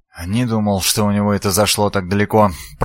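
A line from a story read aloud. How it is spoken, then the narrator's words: Muttering. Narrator (Russian): пробормотал Филипп Фанасхе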